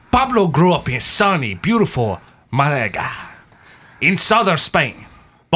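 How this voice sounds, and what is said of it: Put-on accent while narrating. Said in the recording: “I'm really diving into this accent, so I might do the rest of it.”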